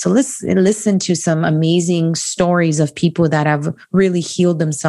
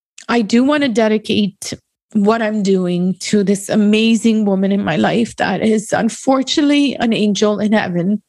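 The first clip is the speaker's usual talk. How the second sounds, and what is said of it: Emotional, choked-up voice. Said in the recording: “I hope I don't get emotional over this, is that, okay, I guess I am going to get emotional.”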